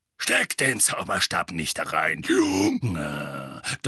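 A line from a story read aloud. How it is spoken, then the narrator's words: Thundering. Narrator (German): donnerte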